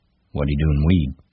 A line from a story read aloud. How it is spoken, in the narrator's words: Slim asked calmly